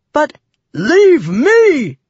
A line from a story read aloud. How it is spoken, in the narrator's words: Father roared